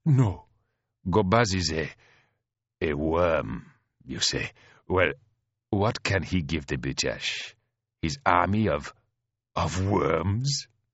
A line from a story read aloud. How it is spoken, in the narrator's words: She chuckled